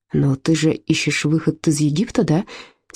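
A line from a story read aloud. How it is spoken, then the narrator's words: Quiet question. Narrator (Russian): тихо спросил Отто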